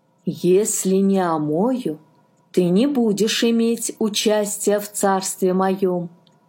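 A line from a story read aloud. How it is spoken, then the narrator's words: Plain. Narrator (Russian): сказал Иисус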